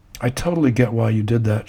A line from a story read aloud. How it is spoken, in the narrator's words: she says